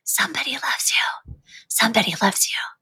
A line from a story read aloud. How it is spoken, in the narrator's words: the dust cloth seemed to whisper